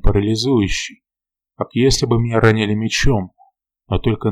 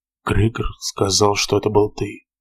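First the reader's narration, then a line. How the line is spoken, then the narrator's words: Mumbling. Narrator (Russian): пробормотал он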